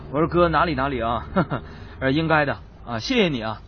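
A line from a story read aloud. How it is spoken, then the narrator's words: Laughing. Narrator (Chinese): 我就笑着对那个高富帅我说了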